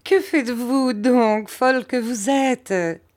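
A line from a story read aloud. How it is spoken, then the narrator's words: Mother speaking, laughing. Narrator (French): dit ma mère en riant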